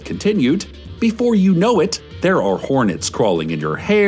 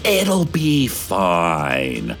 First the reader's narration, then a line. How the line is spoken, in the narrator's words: hissed